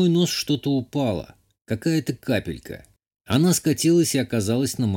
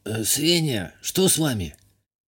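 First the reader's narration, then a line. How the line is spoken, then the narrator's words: Whispering. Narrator (Russian): Прошептал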